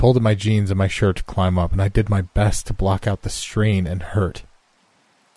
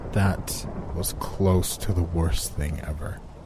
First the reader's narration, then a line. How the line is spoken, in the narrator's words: I groaned in pain